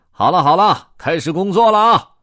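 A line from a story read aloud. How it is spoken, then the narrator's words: Loud. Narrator (Chinese): 驾驶员大声说道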